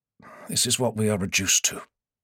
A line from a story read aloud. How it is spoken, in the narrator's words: muttered